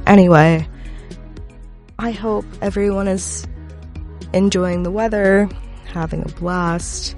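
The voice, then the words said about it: Sick-sounding voice. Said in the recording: “Just don't get annoyed by my voice. My sick voice, that is. ... I'm sick, so excuse the voice.”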